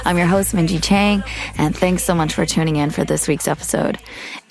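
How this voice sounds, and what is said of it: Hoarse, tired voice. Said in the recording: “Excuse my hoarse voice... I'm a little tired... This is my tired voice.”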